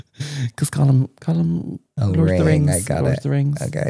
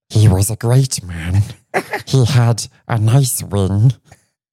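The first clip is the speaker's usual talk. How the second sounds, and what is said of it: Gollum character voice impression. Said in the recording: “My Gollum impression is very good, isn't it? ... It is very good.”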